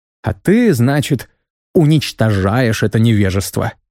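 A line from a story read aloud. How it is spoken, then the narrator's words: Angry, through teeth. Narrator (Russian): зло процедил я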